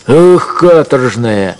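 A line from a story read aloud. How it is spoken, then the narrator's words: Shouted. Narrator (Russian): крикнул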